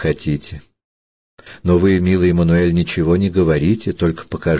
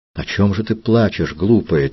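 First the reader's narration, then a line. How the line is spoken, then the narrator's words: Quiet question. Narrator (Russian): тихо спросил Мануэль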